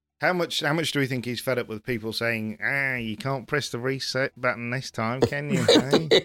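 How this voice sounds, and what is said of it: Techie, nerdy character voice. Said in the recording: “Is that northern accent again? ... No, that was more of a sort of techie, kind of nerdy.”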